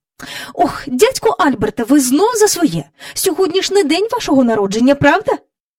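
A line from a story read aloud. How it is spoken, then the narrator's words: Angry woman's voice. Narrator (Ukrainian): Мері Поппінс сердито сказала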